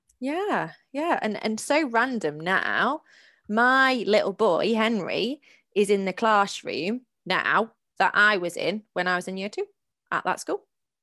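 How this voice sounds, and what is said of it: Mixed northern English accent. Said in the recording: “I think I've got a mix of an accent because I went to uni in Sheffield... And then I hung around sort of Manchester way... being abroad as well, I've just got a little bit of a mix going on”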